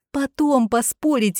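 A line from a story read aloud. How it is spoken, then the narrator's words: Pleading. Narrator (Russian): взмолилась Бьянка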